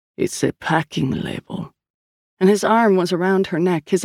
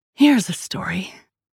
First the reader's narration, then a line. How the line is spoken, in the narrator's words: she hissed into his ear